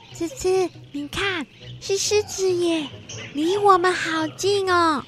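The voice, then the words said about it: Quiet, hushed speaking voice. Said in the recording (Chinese): “小小声地说着”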